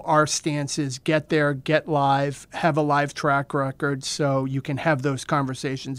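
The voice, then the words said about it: Boston accent. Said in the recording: “That's a Boston accent, not a New York one ... Yes, that's yes. a Boston accent.”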